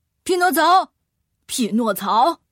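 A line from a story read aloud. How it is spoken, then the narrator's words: Calling out. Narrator (Chinese): 有人在叫自己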